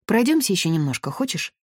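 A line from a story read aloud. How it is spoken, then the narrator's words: Plain question. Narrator (Russian): спросила ее Дора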